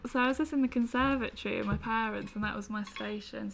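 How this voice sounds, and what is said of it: West Midlands English accent. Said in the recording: “I'm from the West Midlands, from my accent.”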